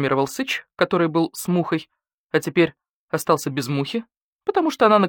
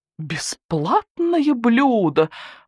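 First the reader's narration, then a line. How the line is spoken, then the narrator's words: Howling coyote. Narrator (Russian): взвыл койот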